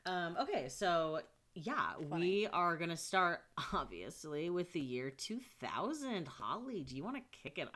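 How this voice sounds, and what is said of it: Upbeat camp-counselor style delivery. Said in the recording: “talking like a camp counselor ... Or like a youth pastor”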